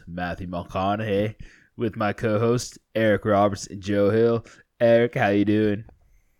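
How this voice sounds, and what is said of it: Celebrity impression slipping into Australian twang. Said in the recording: “There was parts where it was good, but then there was also parts where it was a little Australian ... It hit Australian kind of twang there for a little bit ... You might have had a lisp ... I think it's your D's”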